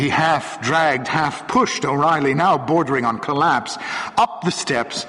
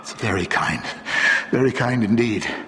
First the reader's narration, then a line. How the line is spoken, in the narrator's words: mumbled O'Reilly, recovering rapidly in the comfort of a presence he already liked